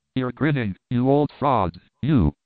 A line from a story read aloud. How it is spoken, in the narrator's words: I cried